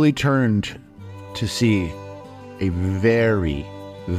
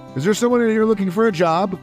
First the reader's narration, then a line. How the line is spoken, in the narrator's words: a voice called out